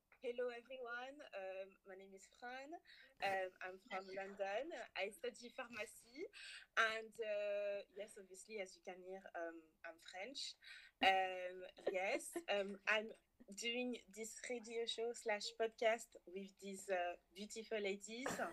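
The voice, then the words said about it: French accent. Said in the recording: “can you speak in your French accent, please? ... Should I do it again with my French accent?”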